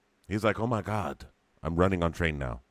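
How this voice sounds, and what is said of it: Put-on accent imitating Clive Owen. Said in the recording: “He doesn't even have an accent. I don't know why I'm talking like that.”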